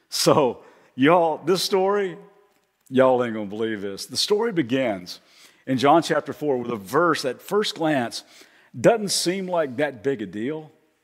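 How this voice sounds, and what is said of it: Slight Southern US accent. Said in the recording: “you might have already kind of detected a little slight accent from me ... I'm originally from Kentucky”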